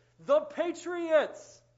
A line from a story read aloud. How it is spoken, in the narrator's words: the kids shouted back with one voice